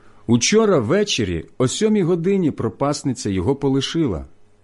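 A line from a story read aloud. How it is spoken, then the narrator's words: Plain. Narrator (Ukrainian): сказали вони йому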